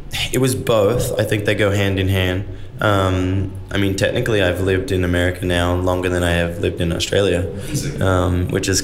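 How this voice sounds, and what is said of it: Australian accent with slight American twang. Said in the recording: “You're a proud Aussie ... over time, a little bit of American twang has, has crept in”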